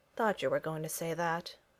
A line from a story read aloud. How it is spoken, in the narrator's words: replied Freddy gloomily